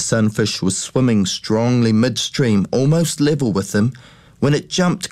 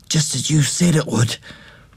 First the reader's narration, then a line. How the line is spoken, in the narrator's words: he whispered